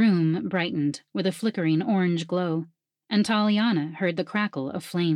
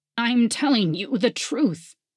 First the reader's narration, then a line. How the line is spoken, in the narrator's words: Ilian whimpered